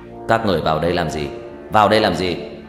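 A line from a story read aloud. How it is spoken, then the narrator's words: Deep gruff voice. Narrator (Vietnamese): Một giọng nói ồm ồm vang lên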